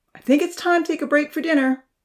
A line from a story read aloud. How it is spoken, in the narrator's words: Uncle Louie called out